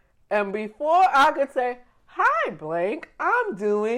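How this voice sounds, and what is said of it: Usual voice. Nothing is said of it.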